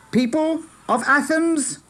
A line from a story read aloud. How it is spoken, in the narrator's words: shouted